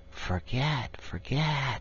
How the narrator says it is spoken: they sigh, and it dies away in a rustle and a whisper

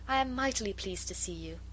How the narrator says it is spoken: said Marguerite, with a pretty little sigh of satisfaction

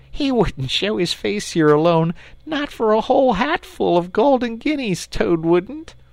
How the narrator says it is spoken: said the rat, laughing heartily

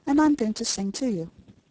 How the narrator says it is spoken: said Jane, gently

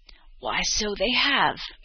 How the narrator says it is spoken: exclaimed the old woman

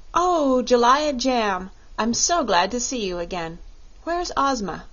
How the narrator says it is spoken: Dorothy with evident pleasure exclaimed

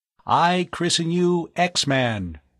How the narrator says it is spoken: Tom intoned

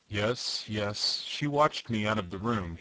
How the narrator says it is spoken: muttered

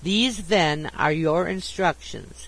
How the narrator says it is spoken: said the Baron, speaking slowly and distinctly, as if to impress his words upon my memory

